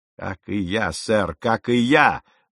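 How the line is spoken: Exclamation. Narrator (Russian): воскликнул капитан

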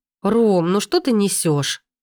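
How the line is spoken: Indignant exclamation. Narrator (Russian): возмущенно восклицает мама

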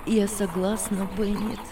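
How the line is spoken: Calm. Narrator (Russian): ответила Анна спокойно

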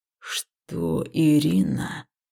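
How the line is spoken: Low muffled growl. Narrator (Russian): глухо рычал жнец

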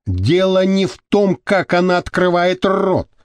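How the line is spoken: Irritated exclamation. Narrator (Russian): раздраженно воскликнула Мария Тереза

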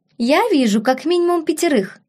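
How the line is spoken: Giggling princess. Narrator (Russian): хихикнула принцесса

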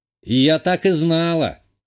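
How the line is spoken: Laughing. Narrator (Russian): рассмеялась ее собеседница

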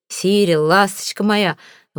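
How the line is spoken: Breathless, affectionate. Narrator (Russian): Выдохнул я в лицо обожаемому кузену

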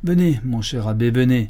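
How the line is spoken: Exasperated cry. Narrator (French): s'écria le chanoine, pâle et exaspéré

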